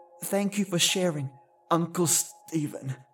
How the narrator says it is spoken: Mum said, her voice choked

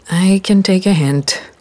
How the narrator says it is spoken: I sighed

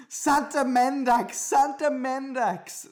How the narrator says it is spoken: screamed the barista

